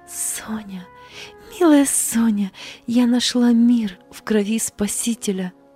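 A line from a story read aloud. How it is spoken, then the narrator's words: Tearful joyful whisper. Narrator (Russian): с сияющими сквозь слезы глазами прошептала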